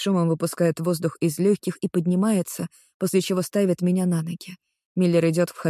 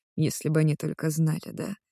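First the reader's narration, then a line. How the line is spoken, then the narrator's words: Frowning mutter. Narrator (Russian): бормочет он, нахмурившись в экран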